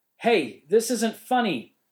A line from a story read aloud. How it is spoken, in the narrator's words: yelled into the darkness